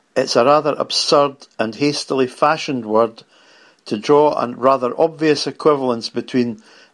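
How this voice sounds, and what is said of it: Striking regional accent. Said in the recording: “you have a kick-ass accent”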